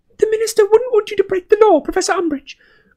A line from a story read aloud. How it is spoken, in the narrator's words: cried Hermione